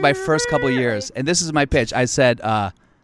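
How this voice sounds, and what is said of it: Usual voice. Nothing is said of it.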